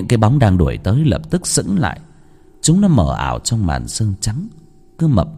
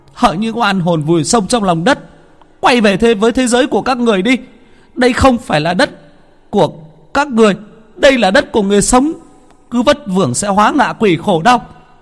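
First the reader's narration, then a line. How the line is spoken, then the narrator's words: Shout. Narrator (Vietnamese): Bà hét lên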